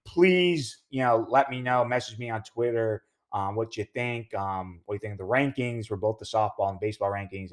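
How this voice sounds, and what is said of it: Hoarse, strained voice. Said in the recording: “I'm losing my voice right now”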